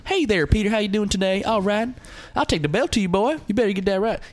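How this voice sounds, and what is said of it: Put-on Southern US accent. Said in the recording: “He's even has a southern accent. ... He talks like that.”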